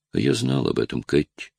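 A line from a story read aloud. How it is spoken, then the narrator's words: Calm. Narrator (Russian): спокойно сказал Ред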